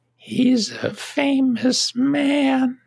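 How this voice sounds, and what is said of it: Frail old lady voice. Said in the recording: “I'll say it in her voice ... this frail old lady voice”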